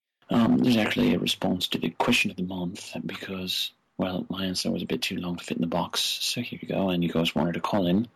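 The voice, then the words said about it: Fake British accent. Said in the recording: “this time in a fake British accent. Don't mean to offend any British people”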